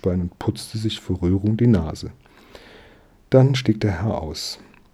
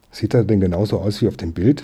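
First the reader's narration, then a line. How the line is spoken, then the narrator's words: Plain. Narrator (German): fragte der Herr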